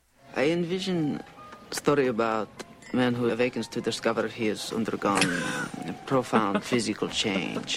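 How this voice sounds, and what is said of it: Hammy Austrian-Czech accent. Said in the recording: “amazing ham sandwich of a Austrian, Czechoslovakian. I don't know what the hell's going on with this accent”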